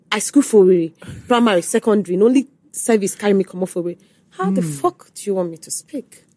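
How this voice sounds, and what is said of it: Igbo Nigerian English accent. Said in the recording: “my accent, Igbo accent”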